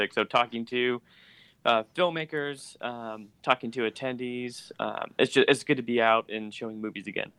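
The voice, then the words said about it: Hoarse voice. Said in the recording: “my voice is already hoarse”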